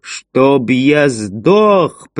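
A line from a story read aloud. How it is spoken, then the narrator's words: Booming like a gunshot. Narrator (Russian): прогремел голос Фентриса, подобно выстрелу из дробовика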